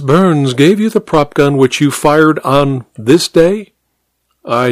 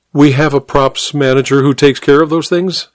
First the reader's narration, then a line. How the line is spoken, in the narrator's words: Amber said